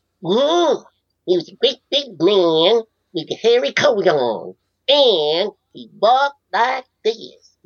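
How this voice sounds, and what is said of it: Impression of Donnie Dunnigan. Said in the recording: “I did my impression of him”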